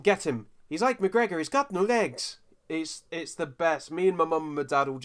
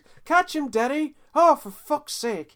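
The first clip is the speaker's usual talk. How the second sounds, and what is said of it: Put-on Southern Irish accent. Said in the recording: “Southern Ireland accent.”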